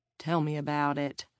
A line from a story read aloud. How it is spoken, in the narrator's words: Garth murmured